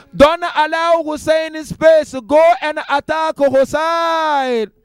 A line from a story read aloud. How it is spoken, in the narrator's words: He called out